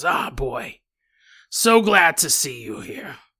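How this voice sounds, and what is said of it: Put-on character voice. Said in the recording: “I'm going to stop doing this voice because it gets annoying”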